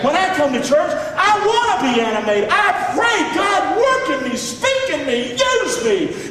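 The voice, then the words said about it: Raised, loud preaching voice. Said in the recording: “raising my voice”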